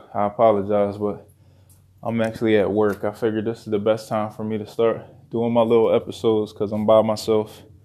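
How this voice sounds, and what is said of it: Slightly out of breath. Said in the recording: “excuse me if I'm a little out of breath too”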